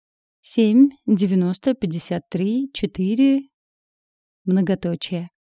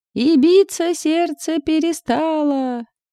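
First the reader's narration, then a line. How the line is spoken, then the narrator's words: Inner yell. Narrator (Russian): заорал хорек в моей голове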